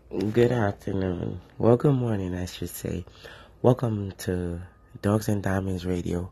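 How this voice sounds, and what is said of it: Hoarse, strained voice. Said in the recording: “I kind of lost my voice.”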